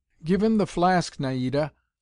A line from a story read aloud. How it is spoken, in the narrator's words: someone exclaimed